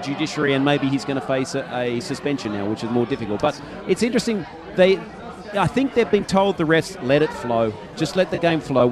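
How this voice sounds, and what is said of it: Australian accent. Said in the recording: “I speak with an Australian accent”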